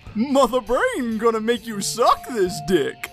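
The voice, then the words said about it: Put-on video game villain voice. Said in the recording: “my Mother Brain imitation”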